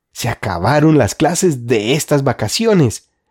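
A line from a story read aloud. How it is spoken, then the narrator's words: Joyful exclamation. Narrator (Spanish): exclamó Ana alborozadamente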